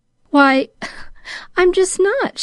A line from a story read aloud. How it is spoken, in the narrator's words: she laughed a little ruefully